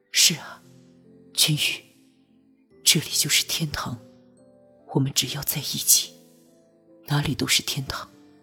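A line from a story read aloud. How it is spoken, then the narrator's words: Soft, tender. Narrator (Chinese): 柔声道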